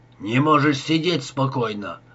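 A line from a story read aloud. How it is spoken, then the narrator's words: Grumbled. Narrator (Russian): ворчал он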